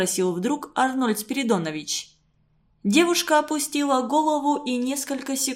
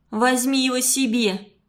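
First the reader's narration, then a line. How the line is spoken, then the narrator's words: Rude girl. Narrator (Russian): грубо ответила девушка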